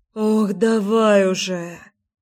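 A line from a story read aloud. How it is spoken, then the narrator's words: Impatient moan. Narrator (Russian): застонала Леся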